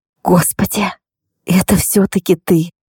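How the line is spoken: Whispered. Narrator (Russian): прошептала Крис

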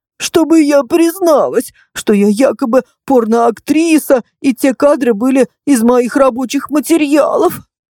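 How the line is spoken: Woman sobbing. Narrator (Russian): всхлипнула женщина

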